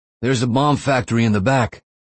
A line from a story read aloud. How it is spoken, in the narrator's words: shouted